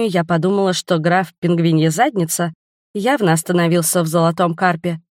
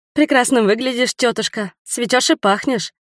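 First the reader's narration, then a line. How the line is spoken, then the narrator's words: Murmuring. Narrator (Russian): пробормотала я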